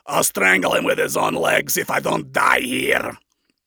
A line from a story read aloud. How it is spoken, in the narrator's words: the overlord growled out in rage and denial